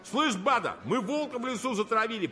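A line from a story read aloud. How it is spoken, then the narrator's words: Triumphant shout. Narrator (Russian): победно закричал зок Медов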